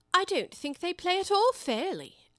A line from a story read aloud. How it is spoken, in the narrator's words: Alice began in a rather complaining tone